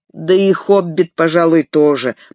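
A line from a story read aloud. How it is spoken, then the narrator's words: Grumbling. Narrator (Russian): проворчал Пиппин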